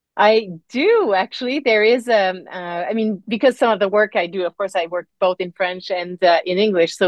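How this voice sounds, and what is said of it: Slight French accent. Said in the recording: “the little of the French accent”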